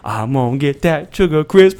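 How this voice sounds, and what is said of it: Southern US accent. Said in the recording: “That is a southern accent ... It might be Louisiana. I'm from New Orleans.”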